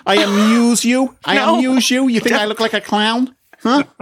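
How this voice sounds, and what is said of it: Put-on Staten Island New York accent. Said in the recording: “I'm going to take you to Staten Island, New York, okay?... I'm going to do one of my accents. I'm going to get into character right now”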